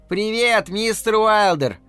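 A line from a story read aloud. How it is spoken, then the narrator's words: Children shouting. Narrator (Russian): Дети закричали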